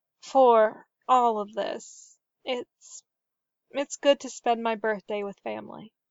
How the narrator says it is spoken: she said softly

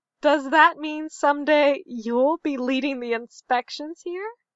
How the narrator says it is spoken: Mayanna's mother laughed

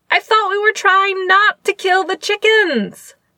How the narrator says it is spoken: Jing Yi yelped

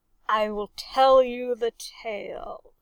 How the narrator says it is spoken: he growled

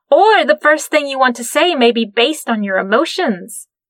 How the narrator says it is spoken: Jing Yi blurted out

